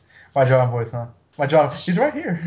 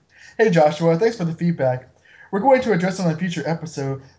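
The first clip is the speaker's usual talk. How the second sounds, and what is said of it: Imitates another person's voice. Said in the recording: “we'll have ... read it back in his John voice”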